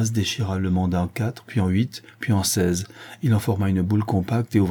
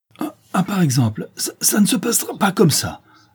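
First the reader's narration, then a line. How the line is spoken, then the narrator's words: Furious stammering. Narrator (French): Béchou bégayait de fureur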